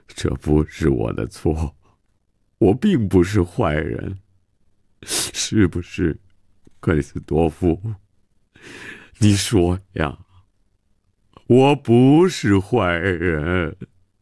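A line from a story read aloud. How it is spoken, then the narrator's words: Self-pitying lament. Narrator (Chinese): 曼西沃自怨自叹地说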